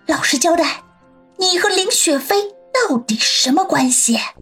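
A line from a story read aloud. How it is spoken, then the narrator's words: Low sneering voice. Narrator (Chinese): 王鑫忽然嘿嘿的冷笑起来 低声的说道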